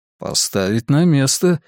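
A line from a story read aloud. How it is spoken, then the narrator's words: Reply then sudden laugh. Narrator (Russian): ответил Билл и вдруг рассмеялся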